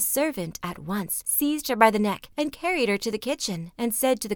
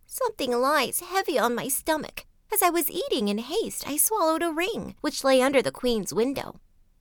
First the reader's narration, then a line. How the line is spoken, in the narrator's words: one said in a pitiful tone